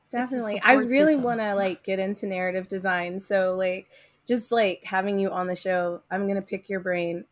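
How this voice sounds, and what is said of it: Hoarse voice cutting in and out. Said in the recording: “my voice is going in and out”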